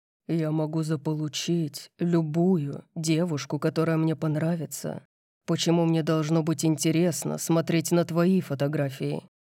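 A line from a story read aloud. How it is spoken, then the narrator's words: Growled. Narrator (Russian): Дариус зарычал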